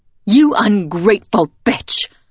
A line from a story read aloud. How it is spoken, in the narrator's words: Ma snaps in my face